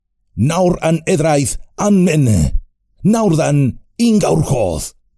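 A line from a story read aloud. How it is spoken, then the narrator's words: Shouting. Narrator (Spanish): gritó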